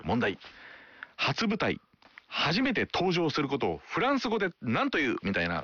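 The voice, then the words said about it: Imitates another person's crisp quiz-host delivery. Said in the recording (Japanese): “口調をモノマネしだしたんです私、 ... 歯切れが良いんですね、ひたすら、”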